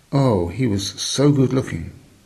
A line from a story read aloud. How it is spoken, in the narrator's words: he was quite distressed and exclaimed